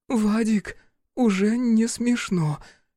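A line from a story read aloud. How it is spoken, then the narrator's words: Hoarse breathy exhale. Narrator (Russian): Сипло выдохнула я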